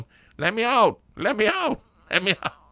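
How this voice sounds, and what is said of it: Imitates another person's voice. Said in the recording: “That's my impersonation of Brother Jay.”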